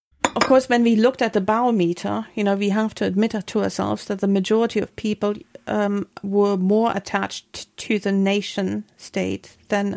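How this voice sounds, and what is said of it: Scottish Highland and Island accent. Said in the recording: “my accent comes from a Highland Island context ... we can all hear that”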